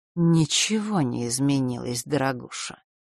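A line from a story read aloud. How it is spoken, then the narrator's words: Gloomy. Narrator (Russian): мрачно ответила часовщица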